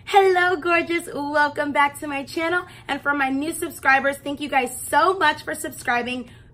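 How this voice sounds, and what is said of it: Unwell voice breaking in and out. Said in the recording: “excuse my voice because I was sick in my last video and then it got worse after that ... my voice is in and out”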